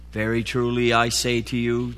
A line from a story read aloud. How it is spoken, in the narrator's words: Jesus answered